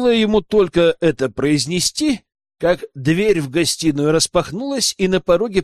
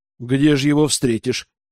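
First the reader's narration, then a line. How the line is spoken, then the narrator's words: Sigh. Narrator (Russian): вздохнул лорд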